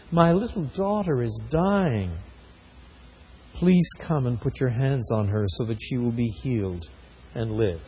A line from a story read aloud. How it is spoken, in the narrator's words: he pleaded earnestly